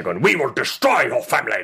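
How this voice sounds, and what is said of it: Imitates a movie villain's voice. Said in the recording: “This is how he talks... It's a pretty good impression... That's not bad. That is not bad.”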